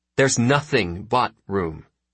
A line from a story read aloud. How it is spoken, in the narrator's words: says Talipeke